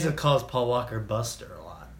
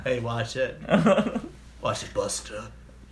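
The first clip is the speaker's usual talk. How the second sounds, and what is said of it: Imitates another person's voice. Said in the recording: “Is that a Vin Diesel impression?”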